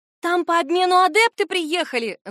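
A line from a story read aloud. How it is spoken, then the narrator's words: Screamed. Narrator (Russian): завопила Сибилла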